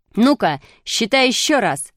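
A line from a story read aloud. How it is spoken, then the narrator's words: Shouted. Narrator (Russian): закричал Шишкин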